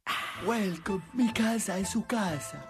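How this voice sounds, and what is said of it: Weird voice, maybe Sicilian-sounding. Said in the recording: “really weird voice. Is he Sicilian?”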